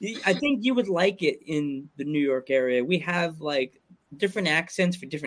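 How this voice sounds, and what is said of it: Usual voice. Nothing is said of it.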